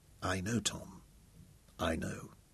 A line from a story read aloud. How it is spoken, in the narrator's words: he whispered